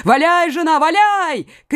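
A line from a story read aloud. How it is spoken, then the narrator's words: Old man shouting. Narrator (Russian): крикнул старик Меркандон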